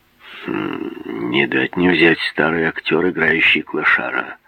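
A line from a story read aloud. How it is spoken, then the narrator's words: Mutter. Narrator (Russian): пробормотал он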